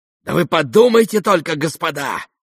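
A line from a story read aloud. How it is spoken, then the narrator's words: Sudden inspired exclamation. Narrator (Russian): воскликнул вдруг в каком-то вдохновении Фердыщенко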